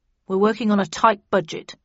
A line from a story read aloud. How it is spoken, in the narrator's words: replied Snudd coldly